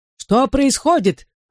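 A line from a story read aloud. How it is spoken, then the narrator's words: Shouted out. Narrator (Russian): выкрикнула она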